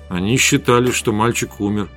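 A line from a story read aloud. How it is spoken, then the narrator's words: Muttered. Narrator (Russian): пробормотал я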